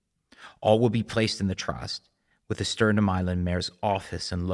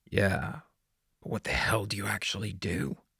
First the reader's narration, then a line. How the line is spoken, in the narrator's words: Bear muttered impatiently under his breath